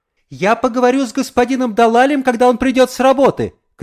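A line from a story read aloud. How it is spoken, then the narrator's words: Shouted. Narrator (Russian): крикнула госпожа Далаль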